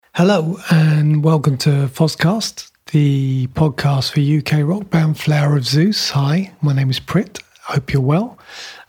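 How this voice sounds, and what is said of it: Strained, worn-out voice. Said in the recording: “Excuse my voice, it's been a long day. I've been using it a lot and I think it's finally fed up of me... so it's decided to give up.”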